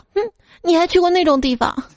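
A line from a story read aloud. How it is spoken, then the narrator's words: Cold sneer. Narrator (Chinese): 老婆就冷笑道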